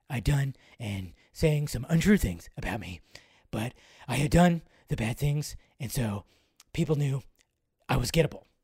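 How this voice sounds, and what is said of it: Joss Whedon impression, hoarse whisper. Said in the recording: “his voice sank into a hoarse whisper. See, this is where I get that Joss Whedon impression.”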